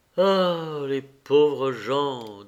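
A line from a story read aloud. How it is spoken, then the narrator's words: Sighing. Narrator (French): dit en soupirant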